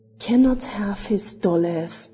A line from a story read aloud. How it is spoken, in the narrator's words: echoed a rasping voice which, from its smothered sound, probably came from the bearded lips of the old reprobate